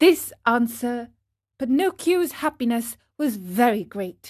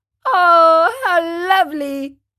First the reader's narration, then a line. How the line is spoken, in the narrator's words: cried Pinocchio, jumping up with joy